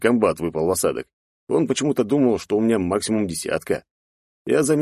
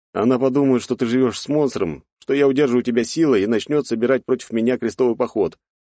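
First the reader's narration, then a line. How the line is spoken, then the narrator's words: Cheerful. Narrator (Russian): весело озвучил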